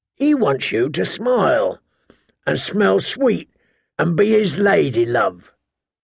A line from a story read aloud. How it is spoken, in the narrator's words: the hound rasped